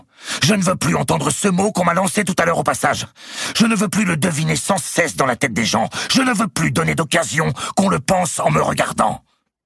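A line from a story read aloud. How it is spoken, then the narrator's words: Shouting. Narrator (French): reprit Louis X en criant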